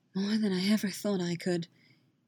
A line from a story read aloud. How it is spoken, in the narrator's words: Jaskier murmuring